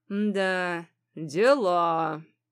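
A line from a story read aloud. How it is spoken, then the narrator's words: Drawn-out drawl. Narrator (Russian): протянул хозяин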